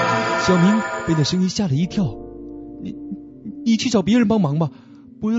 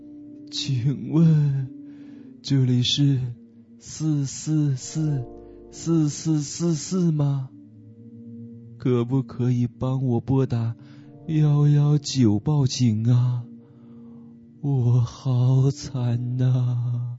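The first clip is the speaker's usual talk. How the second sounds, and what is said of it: Miserable, wailing voice. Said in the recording (Chinese): “用凄惨的声音说”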